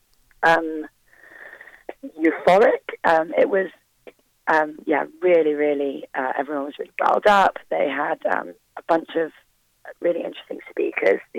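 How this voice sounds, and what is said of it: Hoarse, strained voice. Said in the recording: “my voice is gone”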